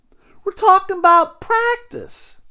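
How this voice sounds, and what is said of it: Imitates another person's voice. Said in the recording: “my Allen Iverson impression”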